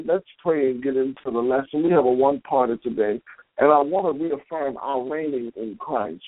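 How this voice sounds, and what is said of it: Strained, weakened voice. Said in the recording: “Please bear with me with my voice tonight... my voice is a little challenged”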